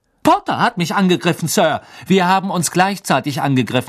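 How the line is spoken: Calling out. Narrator (German): rief Harry

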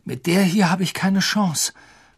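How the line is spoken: Panting. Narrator (German): keuchte Harry

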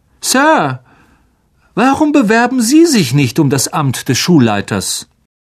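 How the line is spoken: Loud speech. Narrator (German): sagte Malfoy laut

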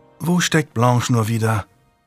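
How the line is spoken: Sighing question. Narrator (German): fragte Lady Juliana seufzend

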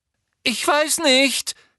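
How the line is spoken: Frightened squeak. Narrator (German): quiekte Hermine verängstigt

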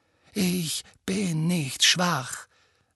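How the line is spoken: Said quietly. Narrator (German): sagte Harry leise

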